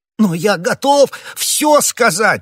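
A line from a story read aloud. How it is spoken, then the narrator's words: Exclaimed. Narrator (Russian): воскликнул Бонасье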